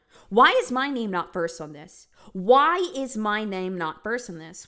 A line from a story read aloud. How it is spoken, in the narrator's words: She starts yelling at everyone